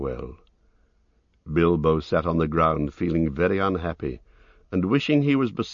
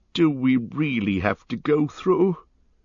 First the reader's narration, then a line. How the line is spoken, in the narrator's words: groaned the hobbit